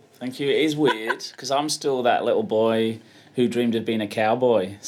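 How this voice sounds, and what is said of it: Speaks with a different accent. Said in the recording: “his accent's a little bit different from mine.”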